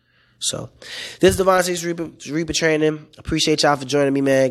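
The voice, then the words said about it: Hoarse, cracking voice. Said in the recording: “my voice cracking, man. I lost my voice.”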